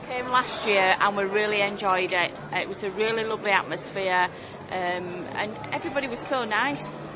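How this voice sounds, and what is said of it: Slight Yorkshire accent. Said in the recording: “Do I detect a slight Yorkshire accent?”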